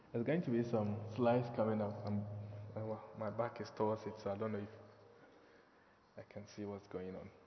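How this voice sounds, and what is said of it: Ghanaian English accent. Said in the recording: “you need to work a little bit to understand my accent and my pronunciation because I'm from Ghana. I'm not English, I'm Ghanaian.”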